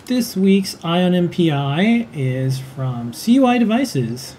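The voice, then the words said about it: Announcer voice. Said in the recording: “That's a nice announcer voice.”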